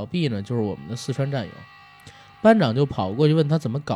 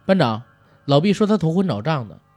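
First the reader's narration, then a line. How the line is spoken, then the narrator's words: Someone shouting. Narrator (Chinese): 有人喊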